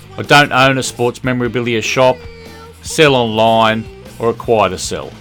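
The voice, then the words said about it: Australian accent. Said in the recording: “as you can tell from the accent, I'm an Australian”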